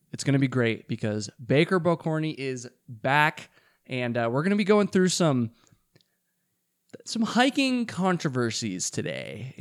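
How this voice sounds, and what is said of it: Slightly hoarse voice. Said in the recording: “my voice is not doing great ... talked to Zach and Chance for over 2 hours, and so I'm feeling a little hoarse”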